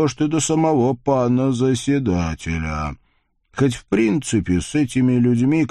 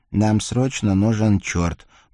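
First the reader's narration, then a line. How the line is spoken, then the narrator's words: Mumbling. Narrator (Russian): пробормотал Николя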